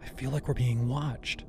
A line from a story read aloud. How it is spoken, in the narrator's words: she whispered